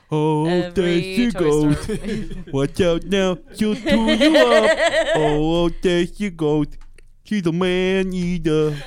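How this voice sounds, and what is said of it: Imitates another person's singing voice. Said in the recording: “doing an I Am Sam impersonation ... That is Randy Newman.”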